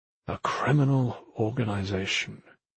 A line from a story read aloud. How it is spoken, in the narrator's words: he muttered again